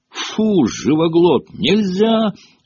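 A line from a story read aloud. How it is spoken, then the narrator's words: Witch's shriek. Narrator (Russian): завопила ведьма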